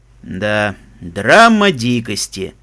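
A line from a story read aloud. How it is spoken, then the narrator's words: Indifferent tone. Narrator (Russian): безразличным тоном сказал Даггер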